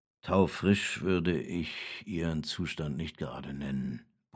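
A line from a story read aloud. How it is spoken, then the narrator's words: Grumbling. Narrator (German): brummt Stave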